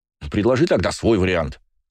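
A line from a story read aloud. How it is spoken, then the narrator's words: Snapping. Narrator (Russian): огрызнулся брат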